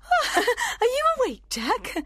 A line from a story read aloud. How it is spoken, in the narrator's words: she cried with a nervous laugh